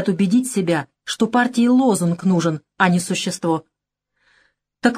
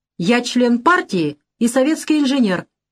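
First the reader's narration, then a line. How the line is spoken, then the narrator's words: Ringing shout. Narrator (Russian): звонко крикнул он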